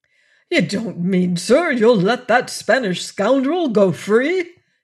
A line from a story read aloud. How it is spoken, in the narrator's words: he cried